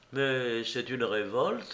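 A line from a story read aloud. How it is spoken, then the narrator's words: Gentle voice. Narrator (French): dit Alyosha d'une voix douce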